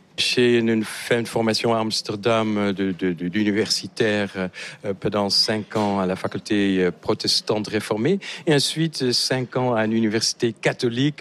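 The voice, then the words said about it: Slight Dutch accent in French. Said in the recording (French): “On voit que vous avez un léger accent... que je n'ai pas perdu depuis les 35 ans que je suis en France. Je suis néerlandais”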